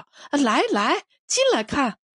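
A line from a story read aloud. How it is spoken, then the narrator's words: Strange laughing. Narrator (Chinese): 顾秀华怪模怪样笑着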